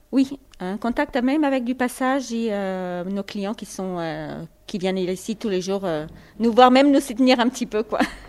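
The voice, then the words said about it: Slight Portuguese accent. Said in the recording (French): “C'est quoi ce petit accent ? ... Je suis portugaise.”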